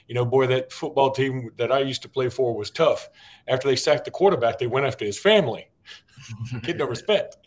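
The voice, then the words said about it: Rodney Dangerfield impression. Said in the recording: “That's my Rodney Dangerfield impression.”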